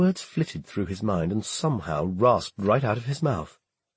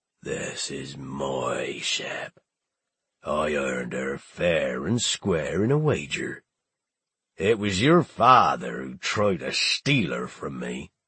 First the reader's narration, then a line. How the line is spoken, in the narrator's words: He growled